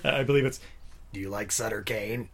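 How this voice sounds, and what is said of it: Creepy menacing character voice. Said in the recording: “In the greatest creepy voice ever... That's it. That's the voice.”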